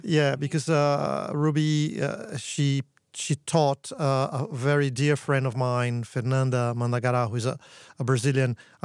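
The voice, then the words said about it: Brazilian accent. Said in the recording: “I'm Brazilian, by the way, thus the accent.”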